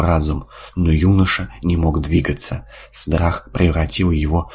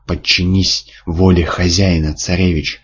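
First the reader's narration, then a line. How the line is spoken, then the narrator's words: Monstrous hissing. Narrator (Russian): шипело ужасное существо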